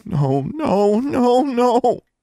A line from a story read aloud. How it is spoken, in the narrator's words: She fell to her knees, moaning